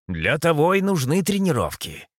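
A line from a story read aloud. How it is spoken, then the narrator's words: Snorted. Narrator (Russian): хмыкнул Митрокол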